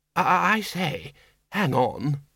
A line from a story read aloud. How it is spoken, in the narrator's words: murmured Windle